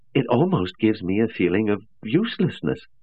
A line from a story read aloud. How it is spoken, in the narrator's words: Baker said, a little uneasily